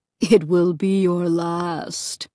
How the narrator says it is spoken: the other horror added with a low chuckle

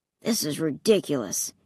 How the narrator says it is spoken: he muttered

